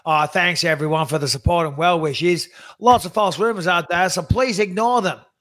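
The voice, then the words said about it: Put-on Australian accent. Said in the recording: “do an Australian accent, please.”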